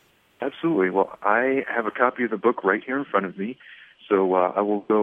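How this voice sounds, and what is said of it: Usual voice. Nothing is said of it.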